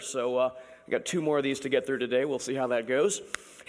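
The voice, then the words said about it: Strained voice, not fully recovered. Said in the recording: “my voice is not quite back, but it's better”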